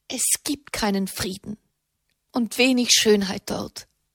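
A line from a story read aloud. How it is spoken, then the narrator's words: Strained murmur. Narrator (German): murmelte Katharina mit gepresster Stimme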